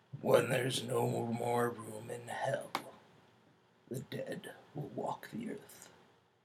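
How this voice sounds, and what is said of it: Attempted deep gravelly voice. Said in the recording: “deep voice ... Probably could have used a little more bass and less gravel”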